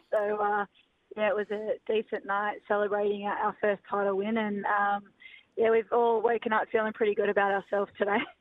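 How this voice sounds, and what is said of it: Hoarse, nearly lost voice. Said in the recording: “As you can hear, I've lost my voice.”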